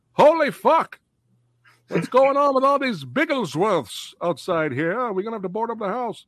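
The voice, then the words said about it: Put-on Scottish accent. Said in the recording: “the most genuine Scottish accent she's ever ... my legendary accurate accents”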